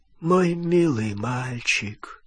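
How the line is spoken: Weak voice. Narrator (Russian): слабым голосом отвечал Олливандер

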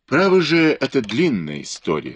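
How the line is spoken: Plain. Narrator (Russian): сказал Лен Цзысин

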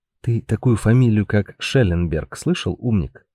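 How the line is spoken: Whisper in ear. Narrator (Russian): прошептал Георг на ухо Паулю

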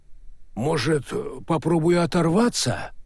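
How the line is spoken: Uncertain suggestion. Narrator (Russian): неуверенно предложил дядя Яша

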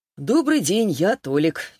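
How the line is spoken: Cheerful. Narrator (Russian): весело подмигнул он

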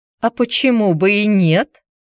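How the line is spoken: Old woman laughing. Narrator (Russian): рассмеялась бабуленька

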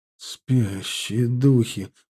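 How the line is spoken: Whisper. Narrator (Russian): прошептал Арди

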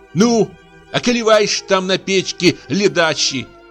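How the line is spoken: Angry shout. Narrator (Russian): крикнула на него Фёкла со злобой

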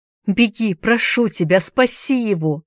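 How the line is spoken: Shouted. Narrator (Russian): закричала Нел

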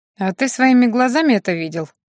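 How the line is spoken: Skeptical snort. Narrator (Russian): хмыкнул Кириан

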